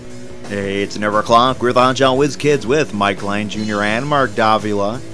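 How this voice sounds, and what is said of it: Slightly off, deeper sick voice. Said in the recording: “my voice is a little off... A little bit... It's a little bit off. I don't know, it's a chest thing going on... maybe you just have a deep voice”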